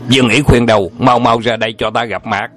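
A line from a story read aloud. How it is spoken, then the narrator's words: Loud shout. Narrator (Vietnamese): Ngọc Diện Na Tra Đàm Thiên Chân lớn tiếng quát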